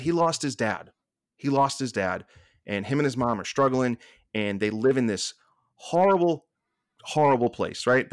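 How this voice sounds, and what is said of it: Boston accent. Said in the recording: “it's tough with a Boston accent to say that”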